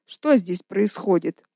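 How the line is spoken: Commanding question. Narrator (Russian): спросил начальственным тоном Гавриэль

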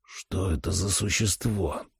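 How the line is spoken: Hiss. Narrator (Russian): прошипел

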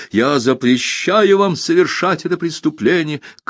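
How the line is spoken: Shout. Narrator (Russian): крикнул он

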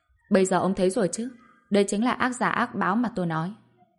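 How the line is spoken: Relaxed, cold smirk. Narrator (Vietnamese): Bạch Diệp Phi hơi thả lỏng, cười nhạt nói

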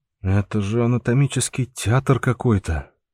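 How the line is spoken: Grimacing, forced out. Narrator (Russian): сморщившись, выдавил из себя Андрей

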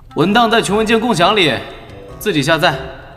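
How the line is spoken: Shouting across a distance. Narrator (Chinese): 赵腾隔空喊话

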